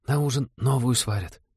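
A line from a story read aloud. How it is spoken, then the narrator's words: Girl's comforting whisper. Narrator (Russian): шепотом утешила новичков та же бледная синеглазая девушка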